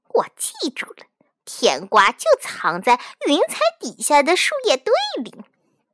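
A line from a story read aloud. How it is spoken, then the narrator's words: Quietly to himself. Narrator (Chinese): 就小声对自己说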